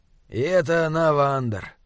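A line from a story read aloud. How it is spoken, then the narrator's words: Grumble. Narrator (Russian): проворчал Изгримнур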